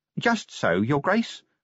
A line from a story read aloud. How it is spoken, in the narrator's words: said the little man calmly